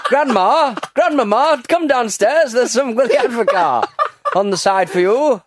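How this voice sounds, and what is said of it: Put-on Sunderland accent. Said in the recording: “Do a great impression of people from Sunderland there.”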